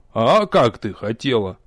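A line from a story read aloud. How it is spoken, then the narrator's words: Contemptuous snort. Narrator (Russian): пренебрежительно фыркнул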